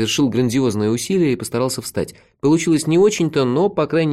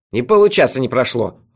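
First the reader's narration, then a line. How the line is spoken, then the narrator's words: Snapping retort. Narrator (Russian): огрызнулся Мелифара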